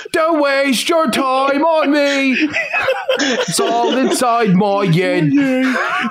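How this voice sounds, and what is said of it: Put-on British accent. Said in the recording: “You know that weird British accent. ... that's why it's in a British accent.”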